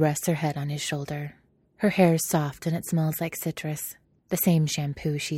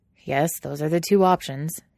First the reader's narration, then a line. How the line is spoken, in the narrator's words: he says dryly